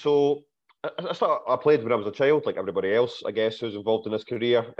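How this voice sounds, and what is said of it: Congested voice from a cold. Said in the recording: “I've got a little bit of a cold,”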